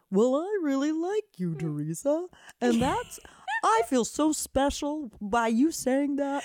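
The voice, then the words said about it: Impression of a cartoonish, puppet-like voice. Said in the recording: “do a really good impression of him ... He has the most cartoonish voice ... He sounds like a puppet. Like, that's the voice of a puppet.”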